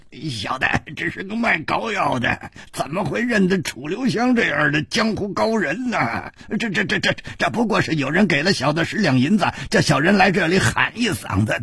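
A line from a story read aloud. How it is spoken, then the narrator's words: Grinning. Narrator (Chinese): 他咧着嘴笑着说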